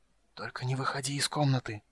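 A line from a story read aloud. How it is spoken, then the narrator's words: Whisper. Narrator (Russian): прошептал он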